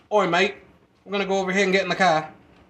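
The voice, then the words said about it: Mock British accent. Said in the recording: “if you go to Britain and you hear them”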